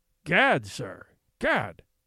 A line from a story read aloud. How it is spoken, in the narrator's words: spluttered the Skookum Bench King